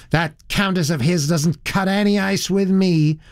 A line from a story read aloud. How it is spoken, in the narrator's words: said the girl in a rather high, shrill voice